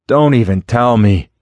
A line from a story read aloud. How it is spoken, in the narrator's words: Clint groaned, his face masked with dread